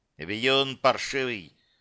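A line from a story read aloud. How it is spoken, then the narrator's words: Angry skull. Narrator (Russian): зло проговорил череп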